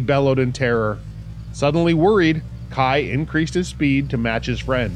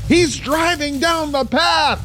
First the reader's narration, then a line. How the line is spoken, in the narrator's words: Jace screamed